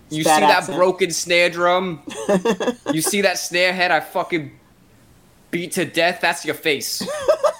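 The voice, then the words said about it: New York accent. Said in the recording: “I wasn't even trying for the accent there ... That was New York. ... That was New York”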